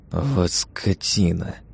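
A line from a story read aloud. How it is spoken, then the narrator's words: Hissing through teeth. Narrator (Russian): прошипел сквозь зубы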